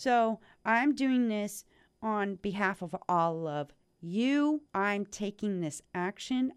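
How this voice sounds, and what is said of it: Usual voice. Nothing is said of it.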